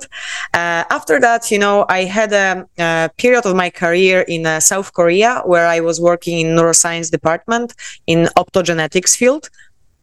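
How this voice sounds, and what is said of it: Polish accent in English. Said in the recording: “I am Polish, as you can tell by my accent.”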